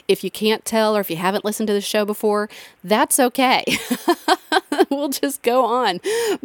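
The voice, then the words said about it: Pinched, congested voice from a cold. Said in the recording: “cold, sick stuff ... my voice is probably a little more pinched than normal ... snarfling and coughing and sniffing”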